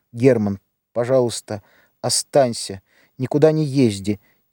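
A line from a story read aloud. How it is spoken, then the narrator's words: Quiet. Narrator (Russian): тихо проговорила Лида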